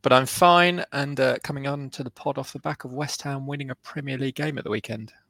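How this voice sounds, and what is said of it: Sick-sounding voice. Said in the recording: “battling off illness. You can probably hear it in my voice.”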